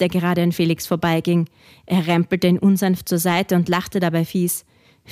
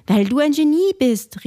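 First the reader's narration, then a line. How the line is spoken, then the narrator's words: Called out. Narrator (German): rief Felix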